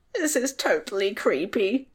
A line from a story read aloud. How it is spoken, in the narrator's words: Tom squeaked, his voice trembling